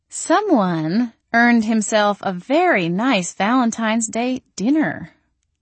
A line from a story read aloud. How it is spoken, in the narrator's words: purred